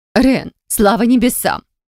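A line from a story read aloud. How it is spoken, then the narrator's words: Sighing and sobbing. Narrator (Russian): вздыхала и всхлипывала Шаэна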